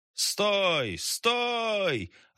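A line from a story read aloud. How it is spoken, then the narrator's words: Deafening shout. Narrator (Russian): оглушительно крикнул человек с фонарем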